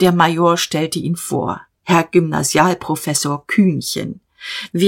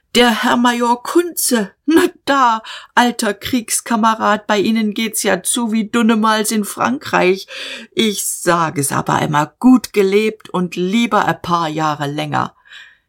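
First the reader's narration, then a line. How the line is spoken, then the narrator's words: Drunken shouting. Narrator (German): Er schwankte herbei, seine Backen glühten, und er schrie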